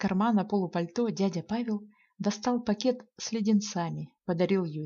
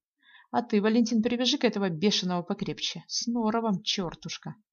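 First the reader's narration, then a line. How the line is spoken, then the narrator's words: Affectionate scolding. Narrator (Russian): Ласково ругнул дядя Павел жеребца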